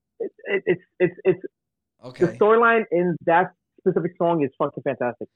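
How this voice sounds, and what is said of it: Slurred, tipsy speech. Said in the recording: “I'm slurring because I'm fucking four beers in”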